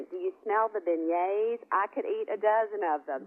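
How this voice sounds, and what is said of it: Cute southern Mississippi accent. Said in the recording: “in her cute southern, you know, Gulfport, Mississippi accent”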